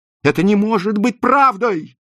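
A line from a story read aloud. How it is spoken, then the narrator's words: Shouting. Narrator (Russian): закричала Розали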